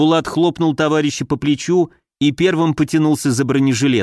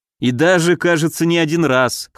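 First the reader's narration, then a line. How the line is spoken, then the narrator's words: Wry snort. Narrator (Russian): хмыкнул я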